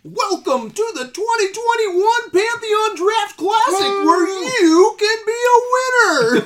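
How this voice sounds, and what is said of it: Announcer voice. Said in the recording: “Do you have a better announcer voice?”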